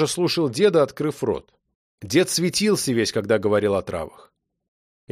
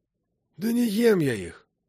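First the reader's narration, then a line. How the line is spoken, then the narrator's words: Old man sighing. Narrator (Russian): вздохнул дед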